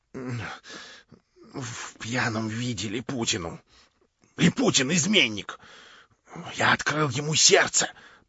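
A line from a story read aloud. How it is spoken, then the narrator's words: Whisper. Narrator (Russian): прошептал бедный капитан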